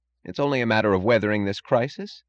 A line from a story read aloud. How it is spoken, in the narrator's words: said Mooch